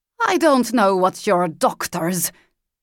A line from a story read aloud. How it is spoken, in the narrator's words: she spat the word out of her mouth like it was poison